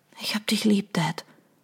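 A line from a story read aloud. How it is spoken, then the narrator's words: Whisper. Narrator (German): flüsterte Audrey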